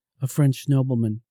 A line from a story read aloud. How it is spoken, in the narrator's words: she said